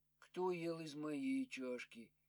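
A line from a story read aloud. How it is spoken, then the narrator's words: Quiet question. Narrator (Russian): Мишутка спросил тихо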